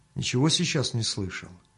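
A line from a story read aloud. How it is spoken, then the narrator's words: Quiet question. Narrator (Russian): Мельник только спросил его негромко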